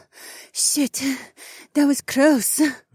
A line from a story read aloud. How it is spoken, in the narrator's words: my Korean lover panted